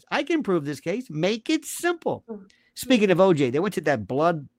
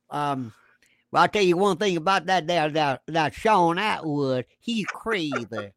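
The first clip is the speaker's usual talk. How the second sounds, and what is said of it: Put-on Louisiana swamp accent. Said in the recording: “in a Louisiana swamp dweller accent”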